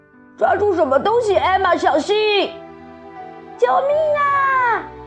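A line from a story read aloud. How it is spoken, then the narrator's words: Shouting. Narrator (Chinese): 韦伯叫道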